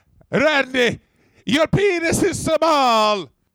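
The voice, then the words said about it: Italian immigrant accent impression. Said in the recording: “in an Italian immigrant voice”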